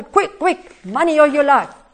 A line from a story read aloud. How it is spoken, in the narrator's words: they shouted